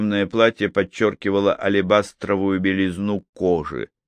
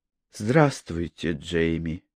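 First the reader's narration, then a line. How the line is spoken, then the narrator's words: Quiet. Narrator (Russian): тихо произнесла Анжелика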